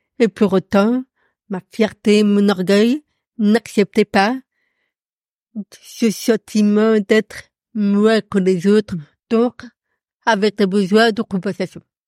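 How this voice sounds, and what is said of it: Noticeable atypical speech accent. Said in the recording (French): “avec ma surdité, il y a un accent”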